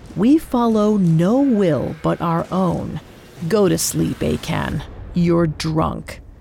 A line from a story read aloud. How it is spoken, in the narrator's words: Joash growled